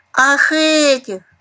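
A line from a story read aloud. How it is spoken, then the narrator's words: Exclamation. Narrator (Russian): воскликнул Ракушка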